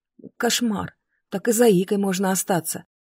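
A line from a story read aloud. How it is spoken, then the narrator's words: Mutter. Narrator (Russian): пробормотала я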